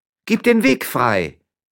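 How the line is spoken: Calling out. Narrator (German): rief diese

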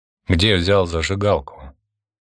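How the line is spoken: Forced calm question. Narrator (Russian): повторил свой вопрос Константин, стараясь говорить спокойно

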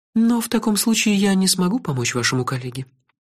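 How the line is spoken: Said sadly. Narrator (Russian): печально сказал халиф

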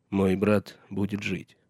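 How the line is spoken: Plain. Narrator (Russian): сказал он Мормонту

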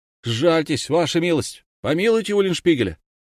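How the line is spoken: Crowd shouting. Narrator (Russian): народ, мужчины и женщины, кричали

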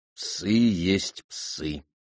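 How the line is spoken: Cold reply. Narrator (Russian): холодно отвечал Кин-Кин

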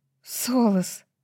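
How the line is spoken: Breathed out. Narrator (Russian): выдохнула Брайс

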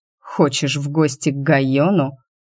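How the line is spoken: Dragon, through clenched teeth. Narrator (Russian): процедил дракон

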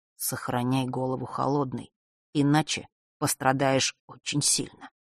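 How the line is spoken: Whisper. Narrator (Russian): сын Острогора прошептал

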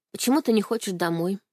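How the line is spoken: Plain question. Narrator (Russian): спросила я

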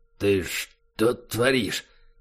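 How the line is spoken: Tense, dry, frightened rasp. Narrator (Russian): Пересохшим от напряжения голосом просипел низкорослый крепыш, боясь лишний раз пошевелиться

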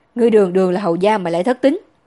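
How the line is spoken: Sudden loud scolding. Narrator (Vietnamese): Lâm Thiên Thu bỗng lớn tiếng mắng Tiết Linh Bích

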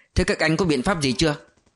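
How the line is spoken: Slightly harsh. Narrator (Vietnamese): Lãm hơi gai gắt

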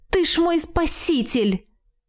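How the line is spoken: Exclaiming. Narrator (Russian): воскликнула я

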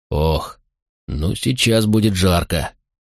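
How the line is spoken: Grumbling. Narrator (Russian): проворчал Макрон

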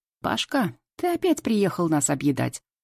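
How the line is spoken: Cheerful shout, old woman. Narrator (Russian): Весело кричит бабуля

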